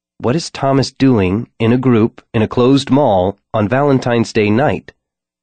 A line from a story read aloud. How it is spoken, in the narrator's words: Her tone rose at the end, questioning